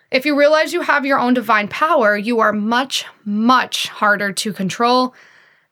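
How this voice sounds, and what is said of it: Shouting into the microphone. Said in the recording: “I'm shouting at this microphone right now”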